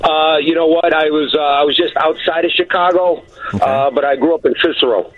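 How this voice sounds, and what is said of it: Chicago accent. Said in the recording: “The Chicago accent challenge ... has a lot of, already you can hear the distinction in his accent”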